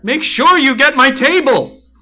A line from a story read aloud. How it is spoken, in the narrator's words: The waitress yelled right in my ear